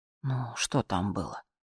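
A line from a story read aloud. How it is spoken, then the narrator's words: Sighing. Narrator (Russian): вздохнула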